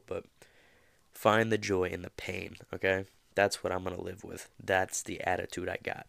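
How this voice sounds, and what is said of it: Nasal, congested voice. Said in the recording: “pardon my voice. I'm a little nasally. I think I have a little cold,”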